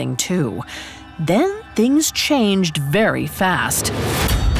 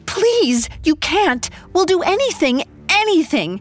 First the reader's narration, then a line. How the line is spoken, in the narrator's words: She pleaded